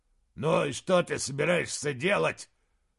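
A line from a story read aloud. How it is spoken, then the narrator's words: Growl into ear. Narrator (Russian): прорычал Фривару ему в ухо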